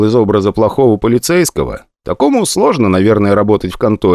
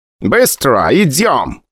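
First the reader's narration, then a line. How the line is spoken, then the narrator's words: Shout. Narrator (Russian): крикнул Джордж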